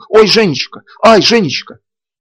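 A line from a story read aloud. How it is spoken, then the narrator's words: Joyful shout. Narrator (Russian): радостно выкрикнула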